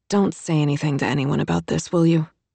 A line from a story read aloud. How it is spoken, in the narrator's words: Kate murmured